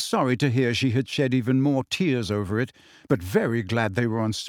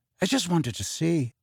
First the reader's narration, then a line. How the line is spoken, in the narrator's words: he mumbled